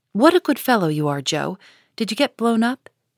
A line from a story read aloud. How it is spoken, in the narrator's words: he added, laughing